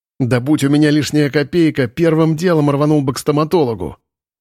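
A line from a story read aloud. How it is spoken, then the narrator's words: Angry, scowling. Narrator (Russian): злобно нахмурился Макар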